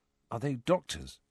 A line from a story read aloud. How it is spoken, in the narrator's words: he asked Ron quietly